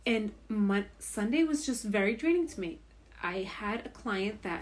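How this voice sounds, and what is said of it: Slurred tipsy speech. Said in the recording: “I'm slurring my words. How much wine have we had?”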